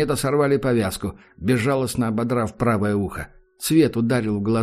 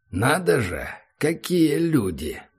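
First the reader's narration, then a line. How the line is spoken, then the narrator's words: Mocking drawl. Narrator (Russian): протянул Ахмед с издевкой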